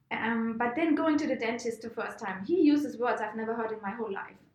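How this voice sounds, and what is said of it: German accent. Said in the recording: “Maybe I have a German accent”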